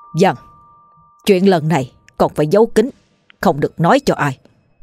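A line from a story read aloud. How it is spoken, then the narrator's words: Stern voice. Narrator (Vietnamese): cha tôi, người đã đầy máu, nghiêm giọng nói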